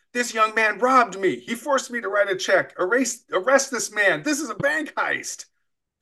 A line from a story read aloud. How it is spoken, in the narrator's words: pointed accusingly at me, and loudly began shouting